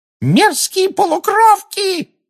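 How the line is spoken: Screaming. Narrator (Russian): завопила Амбридж

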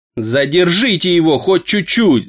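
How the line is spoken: Yelling. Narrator (Russian): завопил Сидрия

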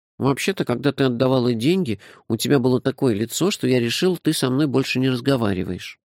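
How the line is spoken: Plain. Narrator (Russian): сказал Номинорих

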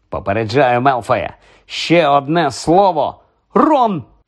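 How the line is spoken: Sudden exclamation. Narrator (Ukrainian): Вигукнула раптом Герміона

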